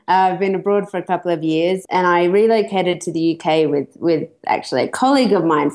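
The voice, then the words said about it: Australian accent. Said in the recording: “you can't figure figure out the accent. ... I'm Australian.”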